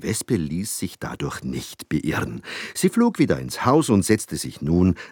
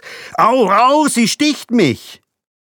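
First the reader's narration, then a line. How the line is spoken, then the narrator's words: Father's horrified scream. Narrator (German): Sofort schrie der Vater entsetzt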